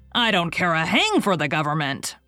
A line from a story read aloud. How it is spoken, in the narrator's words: roared Richard